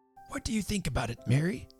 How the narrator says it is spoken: whispered Mr

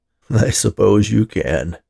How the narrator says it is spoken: laughed Ted

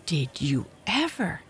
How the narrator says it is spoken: gasped the younger sister

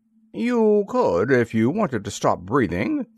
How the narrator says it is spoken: said the Lord High Mayor cheerfully

